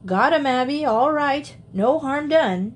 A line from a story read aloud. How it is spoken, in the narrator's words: shouted Uncle Henry